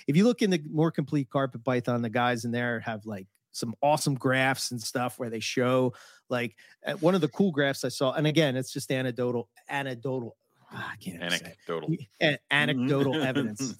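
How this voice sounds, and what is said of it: Philadelphia accent. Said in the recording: “That damn Philly accent.”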